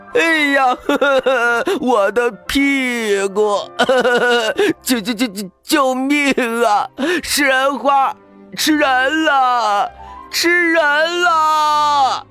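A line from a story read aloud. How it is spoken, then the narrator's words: Terrified wailing. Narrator (Chinese): 这会儿他正吓得哇哇大哭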